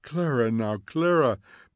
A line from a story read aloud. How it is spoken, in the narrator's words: begged Mildred